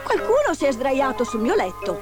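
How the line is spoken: Exclaimed. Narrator (Italian): esclamò

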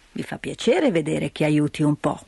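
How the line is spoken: Grandfather grumbling. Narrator (Italian): borbottò il nonno

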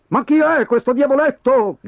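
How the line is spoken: Customers shouting together. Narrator (Italian): gridarono i clienti

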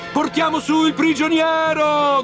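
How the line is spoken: Shouted by many. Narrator (Italian): gridavano

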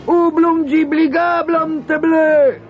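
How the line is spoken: Frightened shouting. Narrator (Italian): gridarono, pensando che Lilliput aveva trovato uno spaventoso gigante per combattere contro di loro

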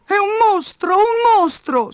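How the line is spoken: Sobbing. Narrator (Italian): singhiozzava lei

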